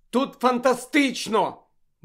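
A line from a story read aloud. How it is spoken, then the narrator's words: Exclaiming. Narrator (Ukrainian): вигукнула Чо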